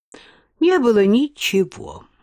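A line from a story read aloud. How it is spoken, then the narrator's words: Man's sigh. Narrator (Russian): вздохнул мужчина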